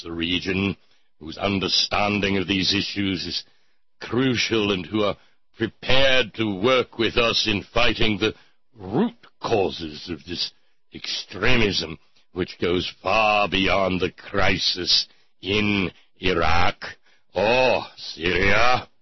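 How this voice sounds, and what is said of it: Bad Winston Churchill impression. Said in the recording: “the bad Churchill impression”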